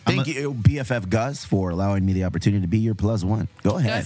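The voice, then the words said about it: Damaged, worn-out voice. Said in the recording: “It was worth losing my voice. ... My voice is still damaged. Damaged.”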